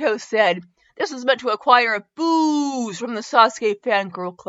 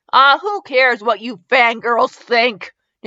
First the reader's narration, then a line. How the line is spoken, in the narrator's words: Naruto yelled